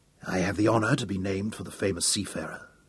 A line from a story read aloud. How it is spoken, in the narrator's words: said Sir Francis softly